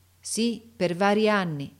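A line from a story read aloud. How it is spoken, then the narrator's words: Plain. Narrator (Italian): rispose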